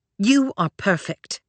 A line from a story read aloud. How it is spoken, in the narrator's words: Claire snapped, and the protective fierceness